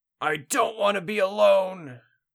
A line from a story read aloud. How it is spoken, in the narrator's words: screamed without a voice